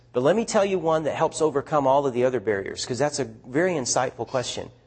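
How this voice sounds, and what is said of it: Speaker's own regional accent. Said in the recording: “It's what you hear going on right now as I speak. They love our accent.”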